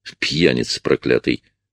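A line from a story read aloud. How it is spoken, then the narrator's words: Grumbled. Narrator (Russian): буркнул Марк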